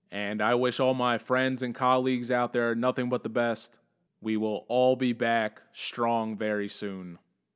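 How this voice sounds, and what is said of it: Exaggeratedly serious, solemn tone. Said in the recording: “That was my serious voice.”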